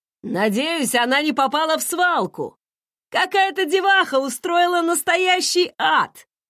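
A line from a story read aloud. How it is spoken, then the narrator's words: Laughing. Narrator (Russian): Арнольд засмеялся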